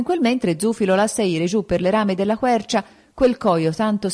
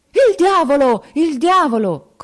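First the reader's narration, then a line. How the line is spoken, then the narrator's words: Terrified screaming, murderers. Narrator (Italian): cominciorno a urlare gli assassini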